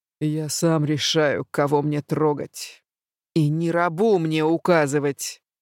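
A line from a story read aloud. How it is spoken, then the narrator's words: Through gritted teeth. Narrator (Russian): наконец процедил Минрах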